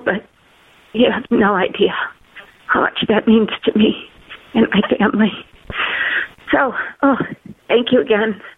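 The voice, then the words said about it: Emotional, choked-up voice. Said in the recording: “I'm sorry for getting emotional”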